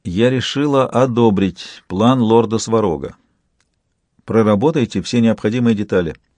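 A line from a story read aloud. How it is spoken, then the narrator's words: Almost calm. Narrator (Russian): сказала почти спокойно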